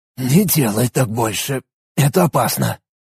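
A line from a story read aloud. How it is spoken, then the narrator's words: Hoarse request. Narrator (Russian): охрипшим голосом попросил Арин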